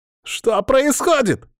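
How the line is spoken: Yelled. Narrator (Russian): заорал

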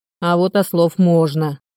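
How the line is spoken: Grumbling. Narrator (Russian): пробурчал Сергей Осипович

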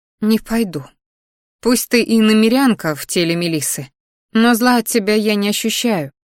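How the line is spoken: Sniffling. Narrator (Russian): шмыгнула носом она

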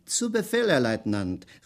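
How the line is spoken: Calling out. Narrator (German): rief Schweig

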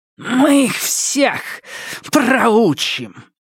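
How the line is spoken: Widow hissing. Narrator (Russian): прошипела вдова

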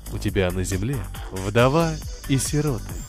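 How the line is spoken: Gentle. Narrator (Russian): ласково ответил Каин

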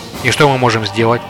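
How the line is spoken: Plain. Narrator (Russian): спросил он Сухмета

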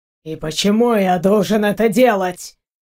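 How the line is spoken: Low growl. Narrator (Russian): Сбоку раздалось тихое рычание

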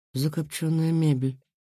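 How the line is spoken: Quiet. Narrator (Russian): тихо проговорил

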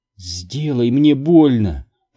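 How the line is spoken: Trembling sobbing moan. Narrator (Russian): простонала, дрожа и всхлипывая

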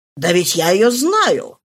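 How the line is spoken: Exclaimed. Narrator (Russian): воскликнул Стейнер, увидав Фошри

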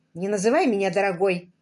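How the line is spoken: Snapped. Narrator (Russian): огрызнулся Дэвид

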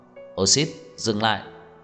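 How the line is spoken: Cold. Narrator (Vietnamese): Anh lạnh lùng nói

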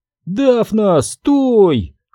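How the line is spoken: Shouting. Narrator (Russian): крикнула Сабрина

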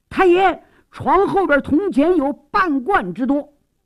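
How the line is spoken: Startled shout. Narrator (Chinese): 忽然差役惊喊起来

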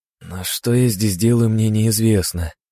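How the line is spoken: Dejected sigh. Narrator (Russian): сокрушенно вздохнул

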